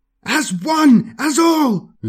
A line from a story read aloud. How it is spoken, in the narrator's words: screams